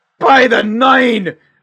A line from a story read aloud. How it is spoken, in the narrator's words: He shouts